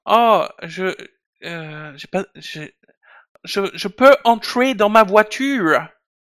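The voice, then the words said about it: Exaggerated fake English accent in French. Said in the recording (French): “un accent anglais à couper au couteau ... c'est un français qui fait semblant d'être anglais ... ça c'est l'accent anglais du personnage principal”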